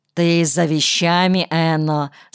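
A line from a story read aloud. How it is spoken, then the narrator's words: Plain. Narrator (Russian): спросила она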